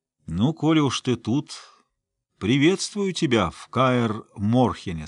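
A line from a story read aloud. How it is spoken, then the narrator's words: Plain. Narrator (Russian): сказал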